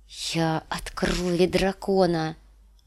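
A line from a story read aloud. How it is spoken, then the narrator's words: Loud whisper, bolstering courage. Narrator (Russian): громко прошептала Дэнни, чтобы поддержать в себе отвагу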